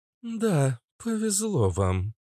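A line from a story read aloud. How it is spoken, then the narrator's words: Gloomy. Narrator (Russian): мрачно проговорил Иштар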